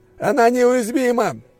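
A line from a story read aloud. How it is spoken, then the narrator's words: Soldier yelling. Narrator (Russian): заорал один из бойцов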